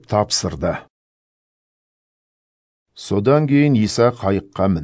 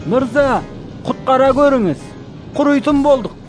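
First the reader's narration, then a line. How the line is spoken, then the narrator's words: Shouting. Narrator (Kazakh): деп айқайлады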